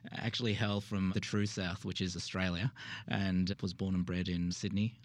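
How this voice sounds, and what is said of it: Australian accent. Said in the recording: “given that you're from Australia ... As you can tell from the accent.”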